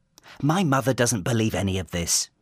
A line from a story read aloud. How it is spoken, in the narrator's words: barks